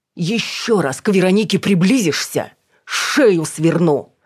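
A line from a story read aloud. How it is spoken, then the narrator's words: Loud shout. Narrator (Russian): громко крикнула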